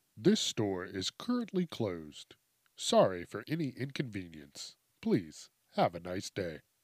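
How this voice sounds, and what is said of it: Robotic automated voice. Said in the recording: “a robot voice”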